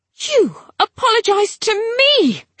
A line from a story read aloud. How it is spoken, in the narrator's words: she bellowed